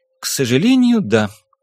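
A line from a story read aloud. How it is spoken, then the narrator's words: Sad, smiling. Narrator (Russian): грустно улыбнулась Кейт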